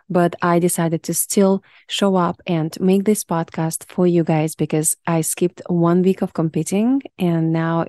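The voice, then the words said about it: Deep, sick-sounding voice. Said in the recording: “excuse me for my deep voice. I don't feel my best. I got a little bit of sickness”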